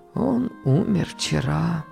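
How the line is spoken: Quiet servant's voice. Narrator (Russian): тихо сказал слуга

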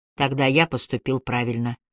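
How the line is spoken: Quiet, stubborn reply. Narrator (Russian): тихо, но упрямо отозвался Пол

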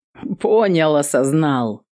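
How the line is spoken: Laughing. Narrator (Russian): Рассмеялся он

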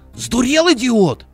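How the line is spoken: Indignant shout. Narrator (Russian): возмущенно крикнул

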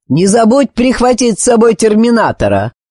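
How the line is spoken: Mocking shout with smirk. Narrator (Russian): крикнул его обидчик с кривой ухмылкой в спину Ребусу

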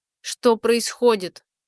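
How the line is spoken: Strained, forced out. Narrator (Russian): выдавила из себя первый Айланта

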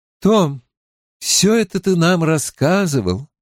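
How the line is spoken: Sad older woman. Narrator (Russian): печально проговорила женщина постарше

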